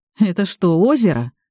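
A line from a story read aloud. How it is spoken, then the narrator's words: Snorting. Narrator (Russian): фыркнул Пашка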